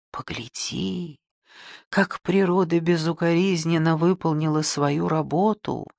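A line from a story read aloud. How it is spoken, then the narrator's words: Whispered. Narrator (Russian): шепнул Валерий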